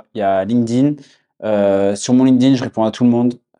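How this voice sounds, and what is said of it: Southwestern French accent. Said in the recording (French): “j'ai l'accent du sud-ouest ... ça garde mon accent du sud-ouest”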